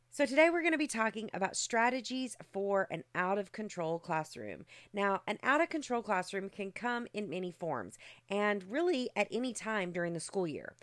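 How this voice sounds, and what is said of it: Rough, congested voice. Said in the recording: “I'm a little under the weather. My sinuses have really kicked in ... my voice is sounding a little rough this morning”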